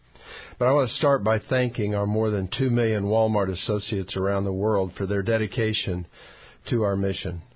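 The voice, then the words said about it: Strained voice, sounds less excited. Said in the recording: “apologize for my voice, but it is allergy season in Arkansas ... It may cause me to sound less excited than I am”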